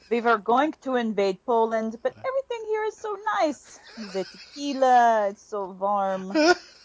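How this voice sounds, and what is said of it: Put-on German accent. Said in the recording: “that's my best German accent”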